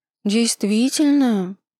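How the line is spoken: Innocent drawl. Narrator (Russian): невинно протянула Степанова

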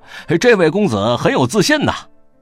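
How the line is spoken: Laughing crowd. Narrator (Chinese): 众人哄笑，都道

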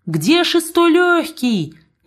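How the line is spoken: Shouted. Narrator (Russian): крикнула маркитантка

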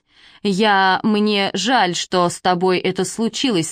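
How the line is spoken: Plain. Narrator (Russian): сказала я

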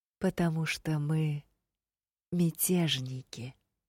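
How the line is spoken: Soft, slow, syllable by syllable. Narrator (Russian): мягко напомнил Лантерей, чуть ли не по слогам выговаривая каждое слово

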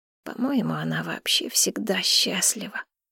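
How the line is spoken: Quiet reply. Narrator (Russian): тихо ответила

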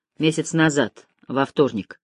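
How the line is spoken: Mutter. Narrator (Russian): пробормотал

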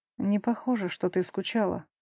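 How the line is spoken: Quiet. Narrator (Russian): говорит тихо

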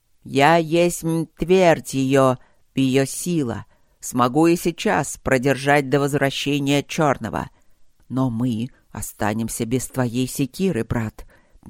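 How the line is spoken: Displeased bark. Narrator (Russian): недовольно рявкнул Красный

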